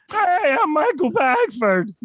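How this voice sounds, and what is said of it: Imitates a cartoon character's voice. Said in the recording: “my Barney Gumble impression”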